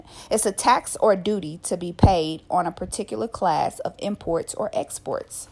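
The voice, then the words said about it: Speaks with a slight accent. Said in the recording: “I have a little accent”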